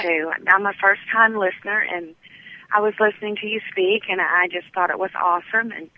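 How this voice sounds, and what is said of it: Mississippi accent. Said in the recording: “from Mississippi ... I absolutely love your accent”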